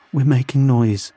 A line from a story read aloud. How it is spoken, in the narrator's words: I said, my voice trembling